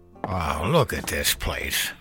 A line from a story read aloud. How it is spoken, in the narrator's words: he grunted